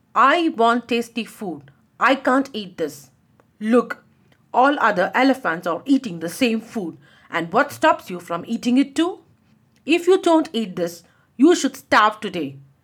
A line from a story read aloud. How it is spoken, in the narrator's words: said Jimki in a strict tone